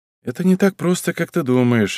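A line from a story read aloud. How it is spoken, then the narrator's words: Sighing. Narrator (Russian): вздохнул я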